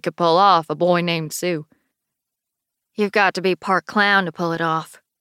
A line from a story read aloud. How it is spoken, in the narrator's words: Sarah says dryly